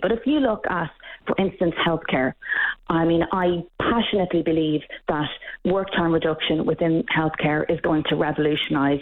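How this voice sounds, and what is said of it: Irish accent. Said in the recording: “You can probably hear from my accent that I'm not Canadian ... the same in Ireland”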